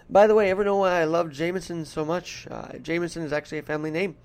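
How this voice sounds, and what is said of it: Mild put-on Irish accent. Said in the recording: “let me see if I can kick the Irish up ... it's not a very thick Irish accent, but it's there. You could tell.”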